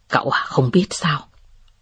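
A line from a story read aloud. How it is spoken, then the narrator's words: Soft laugh. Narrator (Vietnamese): Tưởng Ngọc Hàm cười khẽ và nói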